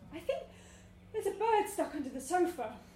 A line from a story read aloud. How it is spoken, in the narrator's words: Rachel gasped